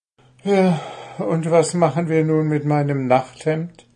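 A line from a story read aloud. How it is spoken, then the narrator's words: Sighing question. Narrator (German): fragte Puh seufzend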